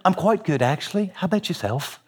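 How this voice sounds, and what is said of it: Clear British accent. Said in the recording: “in the clearest British accent”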